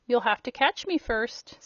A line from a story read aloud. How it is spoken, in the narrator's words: said Rob, still laughing